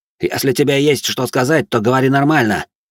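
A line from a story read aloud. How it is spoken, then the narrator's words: Sharp snapping retort. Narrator (Russian): огрызнулся Стриж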